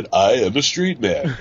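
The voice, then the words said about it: Imitates a character's voice. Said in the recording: “A very good Sulu impression”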